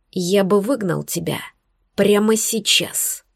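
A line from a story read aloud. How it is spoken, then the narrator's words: Whisper in ear. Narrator (Russian): прошептал он мне прямо в ухо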